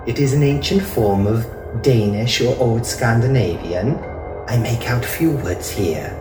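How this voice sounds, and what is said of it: Accent with a slight lilt. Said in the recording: “her accent giving her speech a slight lilt”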